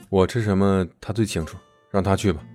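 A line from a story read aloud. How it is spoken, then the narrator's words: Cool, indifferent. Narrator (Chinese): 宋子妍却淡淡的说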